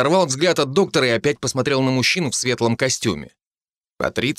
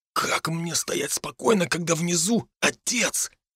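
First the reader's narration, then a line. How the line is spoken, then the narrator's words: Nervous whisper. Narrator (Russian): нервно прошептал Дарт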